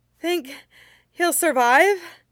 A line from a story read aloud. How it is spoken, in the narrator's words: Hoi Song gasped